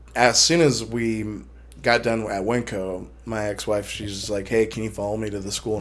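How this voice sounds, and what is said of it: Badly worn-out, shot voice. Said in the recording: “My voice, I can't help it ... my voice is just totally shot”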